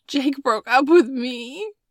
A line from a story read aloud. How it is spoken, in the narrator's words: Maddie sobbed